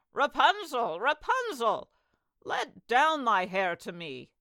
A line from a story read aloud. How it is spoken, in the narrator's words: cried